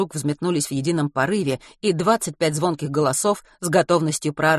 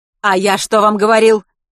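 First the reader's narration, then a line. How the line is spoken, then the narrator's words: Shouted. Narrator (Russian): выкрикнул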